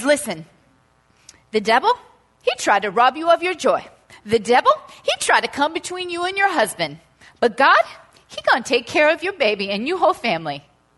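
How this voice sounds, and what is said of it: Put-on Nigerian accent. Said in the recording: “this is Nigerian accent... it's Nigerian, and I'm nailing it”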